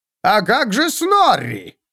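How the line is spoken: Shout. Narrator (Russian): крикнул Снорри

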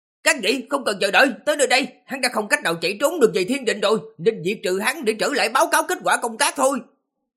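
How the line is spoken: Shout. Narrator (Vietnamese): Phan Xuân Tận quát

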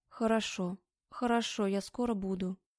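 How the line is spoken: Lifeless voice. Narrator (Russian): безжизненным голосом ответила Аня

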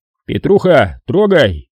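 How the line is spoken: Shouted command. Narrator (Russian): сказал ротный и крикнул водиле

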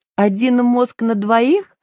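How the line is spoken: Giggling. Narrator (Russian): хихикнула Женя

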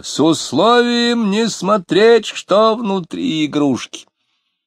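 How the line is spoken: Shouted. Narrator (Russian): Лютов закричал

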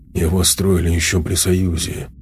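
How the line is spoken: Muttering. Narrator (Russian): пробормотал он

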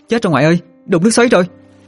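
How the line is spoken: Shouting in alarm. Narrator (Vietnamese): Hương la lên

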